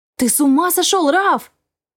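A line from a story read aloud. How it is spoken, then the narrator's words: Exclamation. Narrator (Russian): Воскликнула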